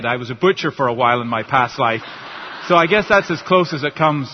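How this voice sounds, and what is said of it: Northern Irish accent. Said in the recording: “cute accent ... do you understand my accent ... I'm from Northern Ireland originally”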